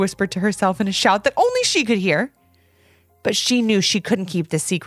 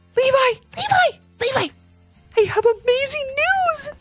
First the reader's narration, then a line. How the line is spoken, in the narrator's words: shouted in a whisper as she ran